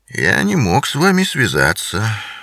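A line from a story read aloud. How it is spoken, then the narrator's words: Said dryly. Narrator (Russian): сухо произнес Бингам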